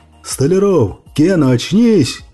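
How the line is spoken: Yelling. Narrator (Russian): заорал Сэм

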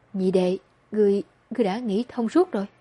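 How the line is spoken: Trembling call. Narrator (Vietnamese): run rẩy gọi một tiếng

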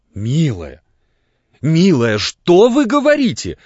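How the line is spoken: Crying out. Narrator (Russian): вскрикнула Марья Константиновна

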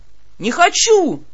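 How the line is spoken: Old man wailing. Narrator (Russian): тут же завопил дед

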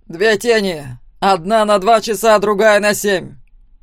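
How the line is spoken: Loud announcement. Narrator (Russian): громко сообщил

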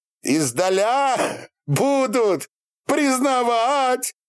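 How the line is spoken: Shouting like deafened man. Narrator (Russian): как оглохший прокричал он

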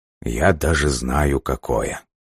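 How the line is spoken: Muttered under breath. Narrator (Russian): пробормотал себе под нос Лавкач

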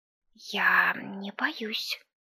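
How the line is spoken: Whisper. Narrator (Russian): шепотом сказала Оленька

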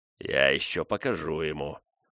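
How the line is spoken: Grumbling. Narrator (Russian): проворчал он

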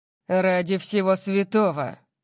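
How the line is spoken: Growling. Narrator (Russian): прорычал он, заметив пятна

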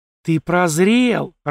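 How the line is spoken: Joyful madwoman. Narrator (Russian): радостно подлетела ко мне сумасшедшая

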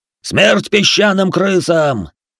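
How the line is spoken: Rallying battle shout. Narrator (Russian): выкрикнул лидер нападающих, подбадривая своих бойцов

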